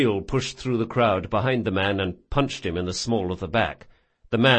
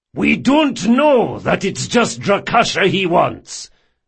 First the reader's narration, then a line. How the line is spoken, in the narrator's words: Jabril shouted